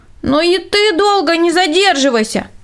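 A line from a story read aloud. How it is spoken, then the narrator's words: Shouted after someone. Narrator (Russian): крикнул ему вдогонку Рудольф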